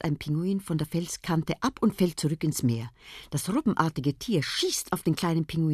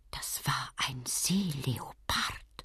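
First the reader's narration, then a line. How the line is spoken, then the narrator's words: Young penguin whispering. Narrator (German): flüstert einer der jungen Pinguine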